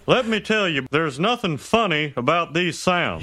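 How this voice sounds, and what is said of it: Hank Hill cartoon character impression. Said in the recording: “That Hank Hill is pretty good ... working on my old Hank Hill impression”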